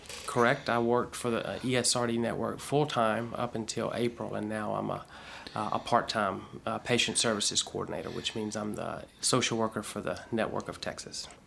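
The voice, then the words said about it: Strong Southern US accent. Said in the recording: “You have a really strong accent. What part of the South are you from?”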